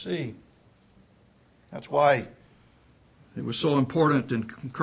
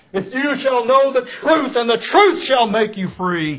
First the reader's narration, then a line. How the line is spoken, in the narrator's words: He cried out